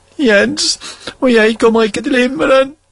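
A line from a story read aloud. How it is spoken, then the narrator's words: Sobbing. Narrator (Norwegian): hulket Petter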